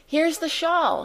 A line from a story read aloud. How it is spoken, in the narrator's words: she cried